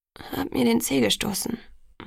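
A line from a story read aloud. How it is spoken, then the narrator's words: Murmur. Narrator (German): murmelte ich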